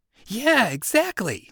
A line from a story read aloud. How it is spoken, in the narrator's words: Jesus said, his voice animated